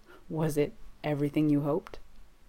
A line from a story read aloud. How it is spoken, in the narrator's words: Jensen groans pitifully